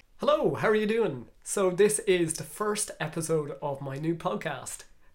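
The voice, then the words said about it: Nasal, congested voice. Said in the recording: “I'm a bit under the weather as I'm just recovering from a cold. So my voice isn't as hot as it usually is, and it's actually just quite nasally.”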